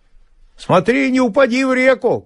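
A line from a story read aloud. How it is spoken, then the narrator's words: Shouting after someone. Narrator (Russian): крикнул ему вслед Илюша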